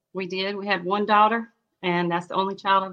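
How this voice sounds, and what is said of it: Southern US accent. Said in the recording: “Did you hear her accent? ... she sounds like Dolly Parton. ... South Carolina.”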